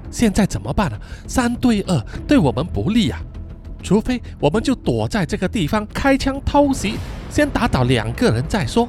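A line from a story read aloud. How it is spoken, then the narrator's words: Whispering. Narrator (Chinese): Sam 就小声对阿派说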